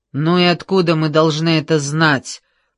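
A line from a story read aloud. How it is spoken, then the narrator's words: Grumbled. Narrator (Russian): проворчал хмырь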